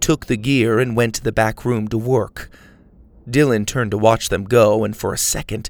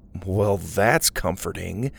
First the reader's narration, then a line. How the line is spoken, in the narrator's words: said sarcastically